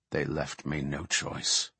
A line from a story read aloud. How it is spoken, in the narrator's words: Malfurion murmured